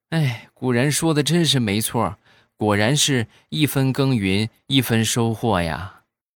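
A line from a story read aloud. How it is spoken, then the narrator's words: Long sigh. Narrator (Chinese): 小家伙长叹一口气，然后说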